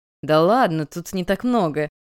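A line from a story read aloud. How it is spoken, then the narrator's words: Laughing. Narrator (Russian): рассмеялся парень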